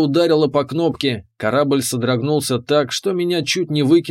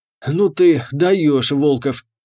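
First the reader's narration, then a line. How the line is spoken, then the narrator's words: Exhaled. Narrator (Russian): выдохнул капитан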